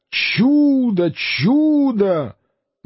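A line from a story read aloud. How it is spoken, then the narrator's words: Loud crowd shouting. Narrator (Russian): поражены, некоторые из них, более простодушные, чем проницательные, кричали громко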